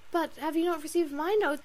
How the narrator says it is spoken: cried Marian in the wildest anxiety

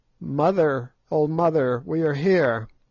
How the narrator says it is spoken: one of them cried out

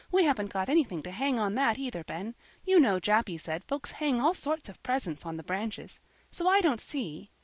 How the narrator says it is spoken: she continued impatiently

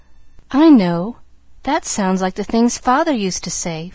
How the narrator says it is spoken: faltered Pollyanna, blinking off the tears

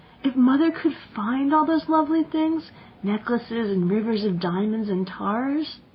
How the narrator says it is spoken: said Jane dreamily

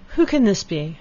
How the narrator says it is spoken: cried Elinor

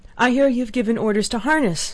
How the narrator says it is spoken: she cried, panting

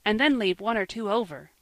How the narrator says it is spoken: cried Joel

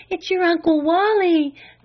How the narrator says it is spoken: panted her mother

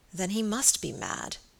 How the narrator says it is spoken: said Sir Michael gravely

